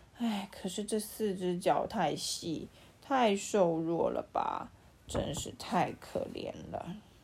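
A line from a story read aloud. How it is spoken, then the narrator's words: Sighing. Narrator (Chinese): 又忍不住叹气说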